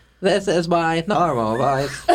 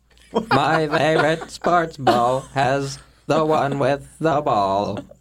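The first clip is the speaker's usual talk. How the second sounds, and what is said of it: Auto-tune style voice. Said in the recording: “you were doing your auto-tune voice”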